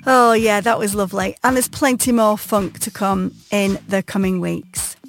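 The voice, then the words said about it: Wigan Lancashire English accent. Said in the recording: “if you didn't know before from my accent, I am well and truly a pie eater”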